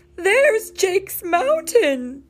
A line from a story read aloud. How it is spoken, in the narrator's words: Mayor Goodway exclaimed